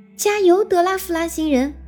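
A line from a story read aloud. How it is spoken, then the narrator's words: Group shouting in turn. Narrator (Chinese): 大家开始一个接一个的喊起来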